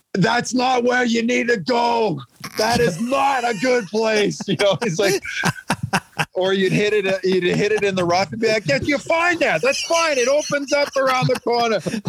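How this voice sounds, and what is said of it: Imitated New York accent. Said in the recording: “Maybe I'm getting my accents confused with Boston or something there... that was pretty good New York voices you had there”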